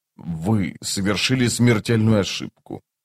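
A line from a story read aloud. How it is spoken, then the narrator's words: Said through clenched teeth. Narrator (Russian): процедил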